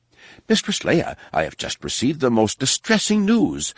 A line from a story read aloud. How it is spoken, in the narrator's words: sputtered